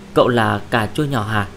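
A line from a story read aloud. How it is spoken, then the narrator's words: Soft, expressionless. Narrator (Vietnamese): Mặc Hàn mặt không biến sắc, lúc sau khẽ nói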